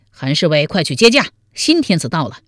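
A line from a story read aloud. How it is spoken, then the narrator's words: Loud shout. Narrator (Chinese): 王彦生高声喊道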